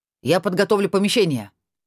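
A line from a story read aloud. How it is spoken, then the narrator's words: Shouted. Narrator (Russian): прокричал Шиллер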